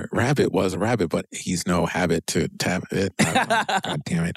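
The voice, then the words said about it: Imitates another person's voice. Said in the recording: “That was my poor impression of Dan Harmon.”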